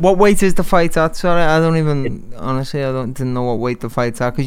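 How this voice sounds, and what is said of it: Speaks with a strong accent. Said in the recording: “I love your accent. That's fire. ... We'll get subtitles.”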